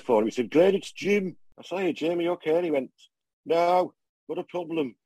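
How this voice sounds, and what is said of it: Poor put-on Birmingham accent. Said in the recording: “he's blew my accent... So I'll cut the Birmingham accent now because it's rubbish”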